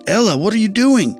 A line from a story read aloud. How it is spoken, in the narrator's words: Miguel shouted